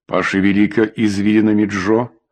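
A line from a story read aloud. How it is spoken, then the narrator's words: Plain. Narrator (Russian): сказал Шейкер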